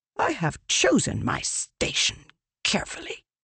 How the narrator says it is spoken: Leshwe snapped

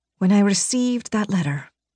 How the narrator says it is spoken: Alia whispered

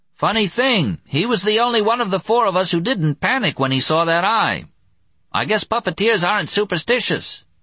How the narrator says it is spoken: screamed Louie Wu

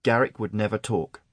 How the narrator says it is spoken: Aaron said firmly

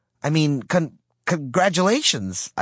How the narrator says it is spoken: I stammered

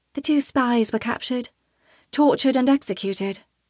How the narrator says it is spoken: Tana says, her voice soft

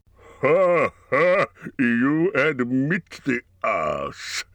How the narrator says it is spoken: laughed Smaug

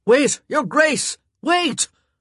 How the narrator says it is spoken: he'd yelled

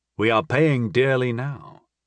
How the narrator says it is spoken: I said evenly

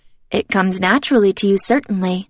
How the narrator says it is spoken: Emily says, her voice flat

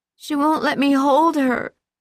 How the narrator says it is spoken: he wailed

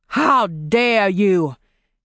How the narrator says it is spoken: He roared

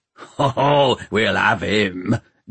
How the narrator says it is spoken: growled Peavy

